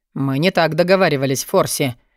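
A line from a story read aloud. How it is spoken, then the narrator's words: Sudden sarcastic interjection. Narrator (Russian): вдруг ехидно встрял Алви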